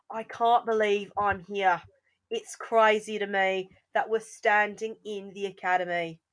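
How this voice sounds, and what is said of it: Decent put-on Australian accent. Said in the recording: “You got to do it in an Australian accent. ... That actually wasn't bad.”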